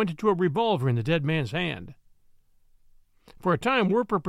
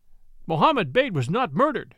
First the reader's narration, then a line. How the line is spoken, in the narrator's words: they cried